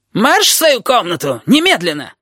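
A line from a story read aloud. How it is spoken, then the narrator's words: Yelled right in ear. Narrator (Russian): Завопил над ухом Щепка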